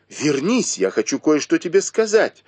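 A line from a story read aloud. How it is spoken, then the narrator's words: Shouting. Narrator (Russian): закричала Сижень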